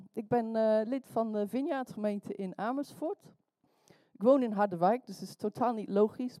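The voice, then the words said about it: Non-native Dutch, Welsh-English accent. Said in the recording (Dutch): “want wat is dat accent? ... Ik geboren in Wales, dus Nederlands is mijn tweede taal”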